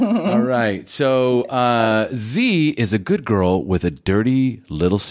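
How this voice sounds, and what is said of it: Usual voice. Nothing is said of it.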